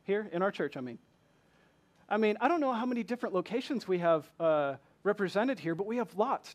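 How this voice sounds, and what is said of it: Southern US accent. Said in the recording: “They say I'm from the deep south with my southern accent.”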